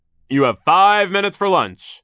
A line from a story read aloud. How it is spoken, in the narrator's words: he shouted